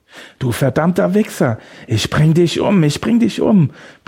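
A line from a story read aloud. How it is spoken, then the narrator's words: Furious roar. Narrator (German): brüllte er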